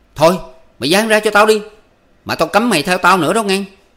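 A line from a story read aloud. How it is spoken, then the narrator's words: Sulky angry shout. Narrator (Vietnamese): Ba Kiên dùng dằn quát lên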